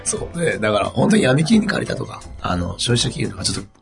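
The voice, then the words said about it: Hoarse, strained voice. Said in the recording (Japanese): “ちょっとお聞き苦しいと思うんで必死で喋ってます ... その声で、ね、今の話されると、ちょっと怖いね ... 声枯らしましょうか”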